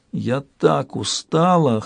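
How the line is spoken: Hoarse whisper. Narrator (Russian): хрипло прошептала она

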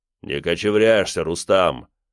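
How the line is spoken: Deep bass voice. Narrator (Russian): пробасил он

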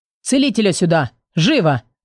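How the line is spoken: Shout breaking silence. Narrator (Russian): закричал виконт Дэниш, прерывая тишину в зале

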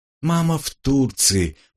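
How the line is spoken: Tired objection. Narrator (Russian): устало возразила мне Светка

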